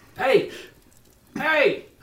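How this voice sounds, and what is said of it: Shouting. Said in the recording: “I'm shouting at him”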